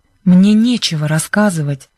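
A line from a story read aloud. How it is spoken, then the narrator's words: Icy cold reply. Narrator (Russian): ответила Бренда ледяным тоном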